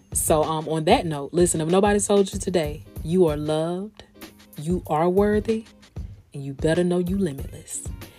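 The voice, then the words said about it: Voice sounds a little off, unwell. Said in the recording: “I know I'm not at all the way at 100% right now ... if I sound a little different”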